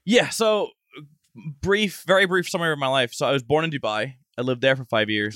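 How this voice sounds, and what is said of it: Hard-to-place mixed accent. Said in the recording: “my accent sounds like shit ... it's called otherworldly in the voiceover industry ... Cause you can't place where the accent is.”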